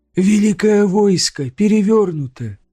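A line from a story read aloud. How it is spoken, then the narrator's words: Hoarse singsong recitation. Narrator (Russian): хрипло продекламировала Конев, говоря нараспев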